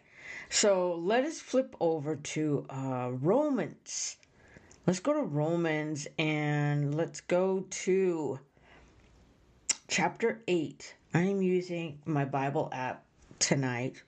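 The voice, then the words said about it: Slightly nasal voice. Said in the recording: “I sound a little nasally”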